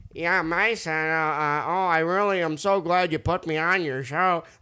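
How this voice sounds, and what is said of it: Imitates another person's funny voice. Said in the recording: “his voice ... Is like this ... doing a bad impression, but ... honestly, it's pretty good. ... He's got like a funny voice”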